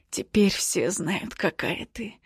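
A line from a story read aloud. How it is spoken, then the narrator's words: Forced through teeth. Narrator (Russian): выдавливает сквозь зубы Хейз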